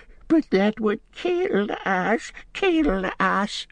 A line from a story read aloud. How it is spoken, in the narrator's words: whimpered Gollum